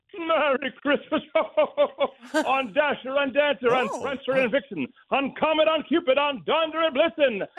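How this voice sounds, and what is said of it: Santa Claus impression. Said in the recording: “your best Santa Claus impression”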